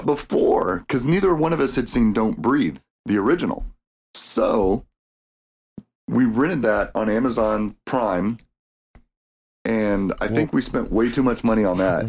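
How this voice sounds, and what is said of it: Voice sounds a little weird. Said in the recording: “my accents or my dialect is a little weird today because of my allergy issues”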